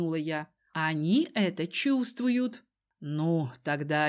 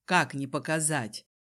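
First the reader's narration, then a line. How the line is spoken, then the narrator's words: Amused snort. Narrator (Russian): хмыкнул Дезмонд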